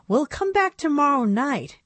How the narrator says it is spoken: Annabelle sighed

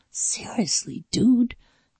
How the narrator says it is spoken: Jeremy whispered

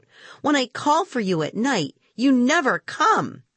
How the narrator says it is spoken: Suddenly, Harry cried out

